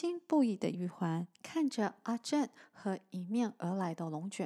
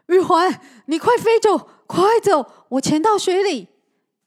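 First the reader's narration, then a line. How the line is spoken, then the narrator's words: Calling out. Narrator (Chinese): 阿正叫着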